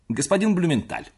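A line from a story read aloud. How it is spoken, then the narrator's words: Hurried. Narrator (Russian): торопливо проговорил я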